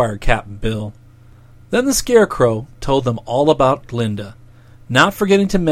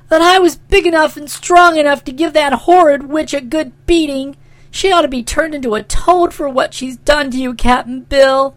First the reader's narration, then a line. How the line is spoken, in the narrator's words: said the girl indignantly, while trying hard to restrain her tears